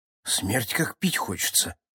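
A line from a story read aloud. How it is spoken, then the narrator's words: Voice dropping to whisper. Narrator (Russian): заметил Хучин Билл, невольно понижая голос до шепота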